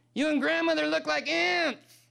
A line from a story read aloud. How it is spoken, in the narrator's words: the boy shouted back